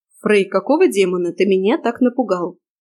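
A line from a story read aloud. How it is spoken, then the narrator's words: Stern question. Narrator (Russian): строго спросила я приятеля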